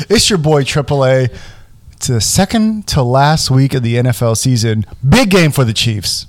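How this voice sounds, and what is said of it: Slightly hoarse voice. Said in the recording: “voice is a little hoarse right now”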